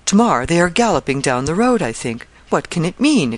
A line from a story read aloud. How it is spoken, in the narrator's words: exclaimed the young lady, scared she could not tell why